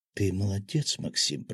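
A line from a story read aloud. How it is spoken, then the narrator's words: Whisper. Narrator (Russian): прошептала Таня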